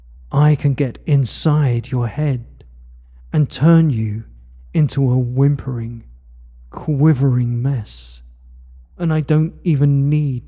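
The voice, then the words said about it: Soft, quiet, commanding voice. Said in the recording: “my voice is power. It's strong, but soft. It's commanding, but quiet.”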